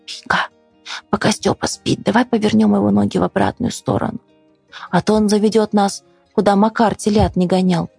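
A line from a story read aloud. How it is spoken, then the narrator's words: Whispered. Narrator (Russian): Лёля шепотом сказала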